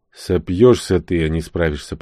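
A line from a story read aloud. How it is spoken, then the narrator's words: Grumbling. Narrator (Russian): проворчал я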